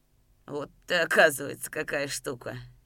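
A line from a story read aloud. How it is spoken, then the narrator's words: Quiet laughing stranger. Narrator (Russian): негромко рассмеялся приезжий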